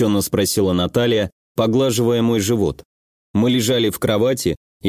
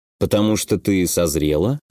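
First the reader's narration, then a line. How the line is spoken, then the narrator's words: Lazy suggestion. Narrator (Russian): лениво предположил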